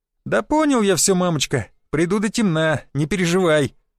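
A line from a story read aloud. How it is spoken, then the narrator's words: Laughing. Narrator (Russian): хохотнул я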